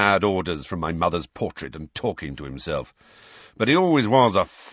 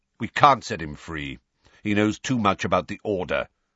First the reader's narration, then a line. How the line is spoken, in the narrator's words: said Sirius curtly